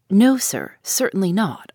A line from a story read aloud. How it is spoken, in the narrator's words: I replied